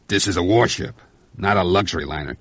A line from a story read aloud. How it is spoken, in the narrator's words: Cassidy snapped